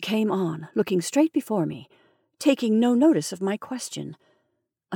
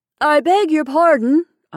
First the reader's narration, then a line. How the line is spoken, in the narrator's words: said, raising my voice